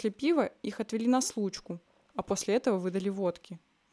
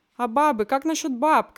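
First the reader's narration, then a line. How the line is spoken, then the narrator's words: Shouting. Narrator (Russian): крикнул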